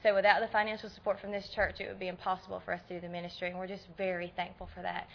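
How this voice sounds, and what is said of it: Strong American Southern accent. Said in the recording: “You can tell I'm from Tennessee from my accent, right? ... southern accent, ... but mine is pretty strong.”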